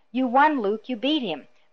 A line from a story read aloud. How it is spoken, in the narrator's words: was shouting into his ear